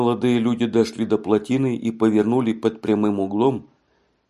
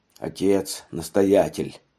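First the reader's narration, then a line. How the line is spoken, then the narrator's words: Muttering to himself. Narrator (Russian): ворчал про себя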